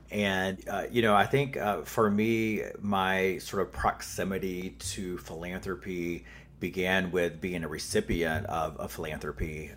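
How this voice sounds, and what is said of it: Southern US accent. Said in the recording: “I'm a Southern boy, which you will hear in my accent probably.”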